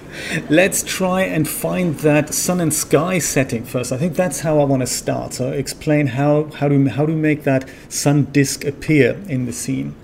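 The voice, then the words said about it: Mixed German-British accent, some American. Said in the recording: “It's a bit of a mixed up accent, mine. It's kind of a German / British with bits of Americanism in there.”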